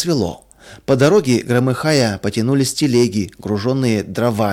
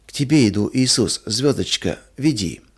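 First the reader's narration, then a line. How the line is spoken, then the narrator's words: Incoherent whisper in sleep. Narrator (Russian): Маруся во сне бессвязно шептала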